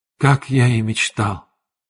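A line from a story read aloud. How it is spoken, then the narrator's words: Whispered. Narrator (Russian): прошептал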